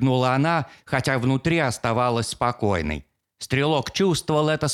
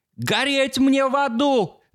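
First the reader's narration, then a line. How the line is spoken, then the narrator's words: Shout. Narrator (Russian): закричал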